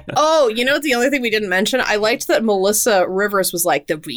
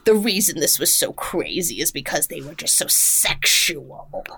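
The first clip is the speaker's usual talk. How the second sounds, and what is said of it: Imitates another person's voice. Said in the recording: “I'm giving her John Rivers voice”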